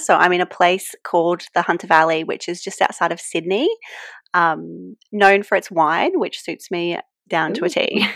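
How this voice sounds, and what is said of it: Australian accent. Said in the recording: “as you can tell from my accent, I live in Australia”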